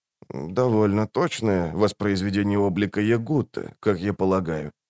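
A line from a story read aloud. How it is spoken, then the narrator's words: Soft speech. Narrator (Russian): мягко проговорил он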